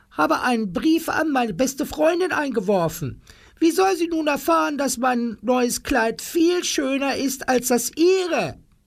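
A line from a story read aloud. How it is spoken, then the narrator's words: Shouting. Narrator (German): schrie Frau Tingel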